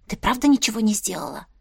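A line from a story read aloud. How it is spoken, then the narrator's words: Whisper. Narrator (Russian): шепнула Настя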